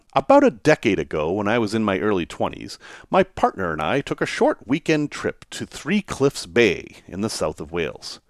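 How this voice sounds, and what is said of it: American accent. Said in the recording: “my strange American accent”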